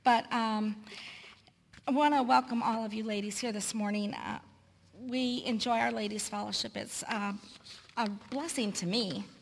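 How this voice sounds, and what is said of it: Hoarse, deep-sounding voice. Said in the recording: “my voice might sound a little bit like one now because it's kind of hoarse.”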